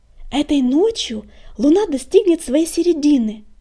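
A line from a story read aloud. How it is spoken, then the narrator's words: Joyful blurt. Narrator (Russian): радостно выпалила Пепелюшка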